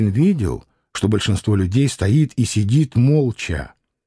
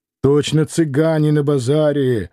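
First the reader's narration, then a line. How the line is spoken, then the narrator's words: Fairly loud. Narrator (Russian): довольно громко сказал Турабоев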